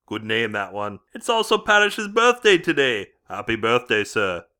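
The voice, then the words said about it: Attempted Geordie accent, slightly rough voice. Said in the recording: “attempt a Geordie accent ... the voice sounds a bit rough today. Got a touch of the man flu.”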